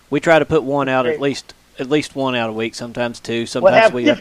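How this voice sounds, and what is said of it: Slight southeastern Kentucky accent. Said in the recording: “You got an accent. You from Texas or somewhere? ... I'm the funny sounding one. No, I'm from southeastern Kentucky. ... you had a little bit of an accent there. ... I sound weird. ... I just start catching your accent there a little bit. ... It's lessened over the years since I've been living in Indiana.”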